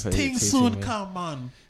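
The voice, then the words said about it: Mock Jamaican accent. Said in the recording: “That was a whack ass Jamaican accent, wasn't it? ... Better than most I've heard.”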